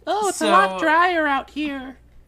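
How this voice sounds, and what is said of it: Imitates a newborn baby's voice. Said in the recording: “That's my impression of a baby exiting the womb.”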